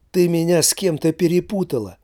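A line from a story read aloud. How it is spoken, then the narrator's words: Exclaiming. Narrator (Russian): воскликнул художник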